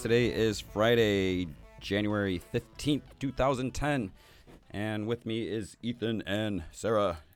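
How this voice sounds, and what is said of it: Hoarse, strained voice. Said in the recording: “I'm about to lose my voice.”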